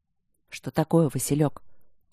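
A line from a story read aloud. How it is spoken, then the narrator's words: Quiet question. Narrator (Russian): тихо спросил Мариан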